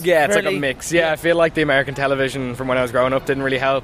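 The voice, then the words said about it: Posh-leaning Irish accent. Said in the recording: “compared to the rest of the family, I think I have one of the posher accents ... I like had like a bit of a posher accent”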